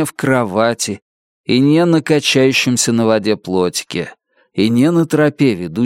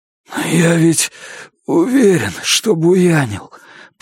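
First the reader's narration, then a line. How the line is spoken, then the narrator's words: Hoarse wheeze. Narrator (Russian): просипел я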